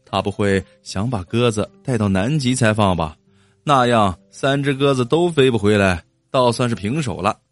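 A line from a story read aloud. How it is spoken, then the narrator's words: Joking. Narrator (Chinese): 王红开玩笑的说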